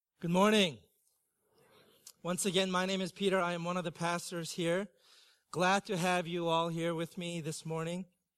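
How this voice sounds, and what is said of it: Congested, rough-sounding voice. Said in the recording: “I am battling some serious springtime allergies... I sound so terrible”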